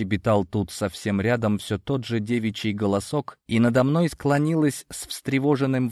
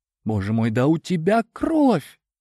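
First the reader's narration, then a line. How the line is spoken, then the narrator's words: Frightened gasp. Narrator (Russian): Испуганно ахнула рядом девушка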